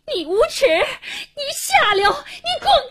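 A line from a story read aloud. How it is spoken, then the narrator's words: Terrified, furious cursing. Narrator (Chinese): 黄英一脸恐怖地气急败坏地骂着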